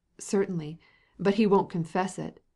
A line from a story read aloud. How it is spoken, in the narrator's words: said Katavasov with a loud laugh